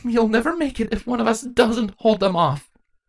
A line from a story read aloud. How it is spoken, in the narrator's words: her mother tearfully said